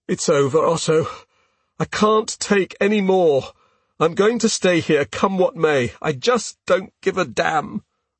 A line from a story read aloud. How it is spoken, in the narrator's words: I moan